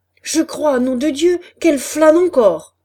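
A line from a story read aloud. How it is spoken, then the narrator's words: Growled. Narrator (French): gronda la voix de Chaval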